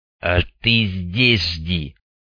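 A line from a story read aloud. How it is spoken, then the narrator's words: Angry growl. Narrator (Russian): зло прорычал Старлей Снейку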